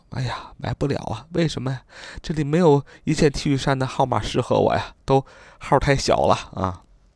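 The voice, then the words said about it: Very quiet, small voice. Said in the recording (Chinese): “很小声的”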